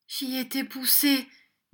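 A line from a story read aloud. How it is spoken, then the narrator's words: Faint failing voice. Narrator (French): dit Smic d'une voix défaillante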